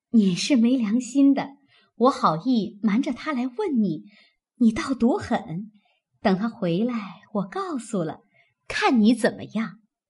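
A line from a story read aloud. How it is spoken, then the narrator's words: Laughing. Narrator (Chinese): 平儿笑道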